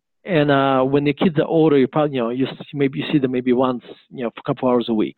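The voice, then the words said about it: Russian accent in English. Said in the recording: “obviously I have an accent, and so people can detect that I was not born in the United States... do you consider yourself Russian”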